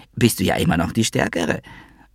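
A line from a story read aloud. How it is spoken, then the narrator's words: Undignified giggle. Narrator (German): er kicherte unwürdig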